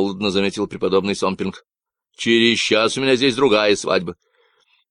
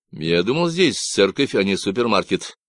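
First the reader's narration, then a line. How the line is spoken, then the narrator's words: Angry, through gritted teeth. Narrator (Russian): процедил Грейс, злясь на черствость священника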